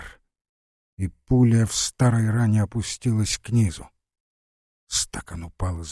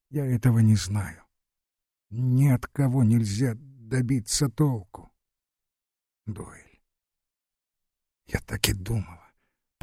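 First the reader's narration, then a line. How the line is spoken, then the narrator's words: General's wife whispering. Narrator (Russian): прошептала генеральша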